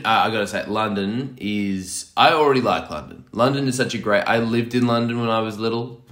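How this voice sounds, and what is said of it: Hoarse, sore-throated voice. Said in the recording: “am I sore just all over. Just, so you could be hearing that in my throat. ... I'm a little bit hoarse”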